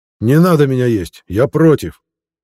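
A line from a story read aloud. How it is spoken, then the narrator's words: Loud reply. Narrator (Russian): Громко отозвался Ильшат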